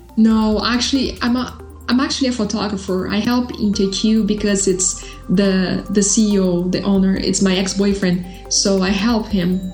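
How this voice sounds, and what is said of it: Brazilian accent. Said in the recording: “you have a really cool accent. Where's it from? ... Brazil.”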